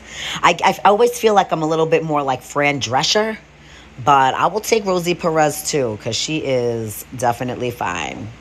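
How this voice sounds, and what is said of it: New York / Massachusetts American accent. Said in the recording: “like New York, Massachusetts accent”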